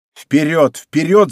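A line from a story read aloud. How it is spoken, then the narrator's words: Shouting. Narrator (Russian): закричал Д'Артаньян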